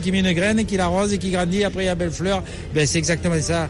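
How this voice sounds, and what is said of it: Southern French accent. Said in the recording (French): “il y a du soleil, vous avez entendu son accent? ... Ah oui, il y a du soleil, c'est, le soleil du midi.”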